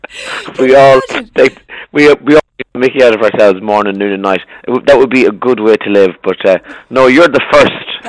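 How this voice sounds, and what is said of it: Irish accent. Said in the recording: “taking the mickey out of your accent ... in Ireland that we all find each other's accents hilarious”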